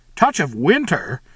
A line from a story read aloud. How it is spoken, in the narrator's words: he exclaimed